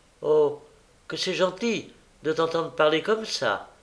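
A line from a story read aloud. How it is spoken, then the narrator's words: Delighted exclamation. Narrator (French): s'écria Charlotte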